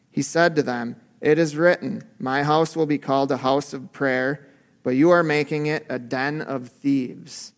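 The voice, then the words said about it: Flat monotone reading. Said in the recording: “the way I read it in my monotone, didn't make it sound as um, intense as it really was”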